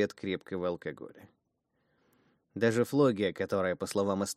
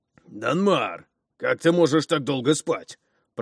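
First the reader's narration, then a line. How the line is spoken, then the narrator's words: Booming, annoyingly cheerful voice. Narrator (Russian): прогремел до противности бодрый голос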